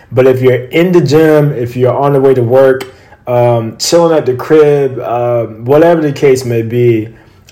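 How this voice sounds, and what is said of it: Voice affected by illness. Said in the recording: “we're actually getting over COVID. So excuse my voice”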